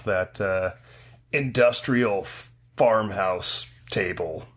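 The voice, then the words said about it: Dramatic movie-trailer voice. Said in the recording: “you have to say it in a movie voice”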